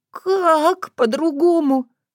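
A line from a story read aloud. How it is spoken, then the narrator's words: Sob. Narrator (Russian): всхлипнула Таня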